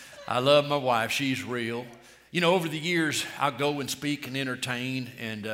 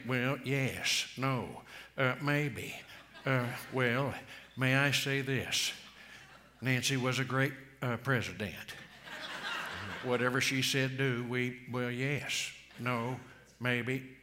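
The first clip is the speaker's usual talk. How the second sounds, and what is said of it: Ronald Reagan impression. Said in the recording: “I do voice impersonation ... I'll do a Republican, Ronald Reagan.”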